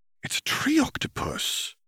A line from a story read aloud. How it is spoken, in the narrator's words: Hermione gasped under her breath